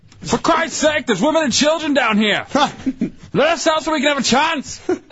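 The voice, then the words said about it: Impression of Titanic movie passengers. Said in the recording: “Those are the worst impressions ever. ... that one's right on for the movie.”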